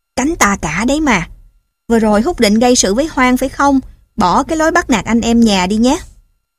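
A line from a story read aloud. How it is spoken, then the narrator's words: Subtle smiling tone. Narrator (Vietnamese): Chị mỉm cười ý nhị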